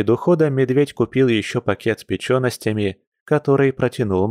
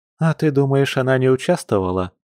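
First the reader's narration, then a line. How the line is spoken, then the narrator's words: Retort with a sigh. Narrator (Russian): парировала Маша, вздохнув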